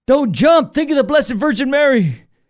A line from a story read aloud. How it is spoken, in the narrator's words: Desperate now, the cop yells up